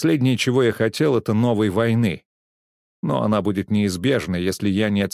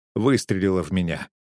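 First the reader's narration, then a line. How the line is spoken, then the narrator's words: Cold. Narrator (Russian): холодно ответил я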